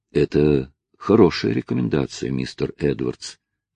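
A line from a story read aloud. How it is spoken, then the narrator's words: Soft. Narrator (Russian): мягко проговорил судья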